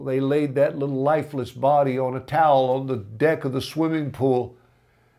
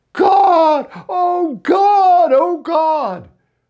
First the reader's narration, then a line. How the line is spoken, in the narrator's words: And she screamed and cried